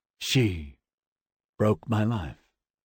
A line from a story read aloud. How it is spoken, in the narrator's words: said so softly I had to strain to make out his words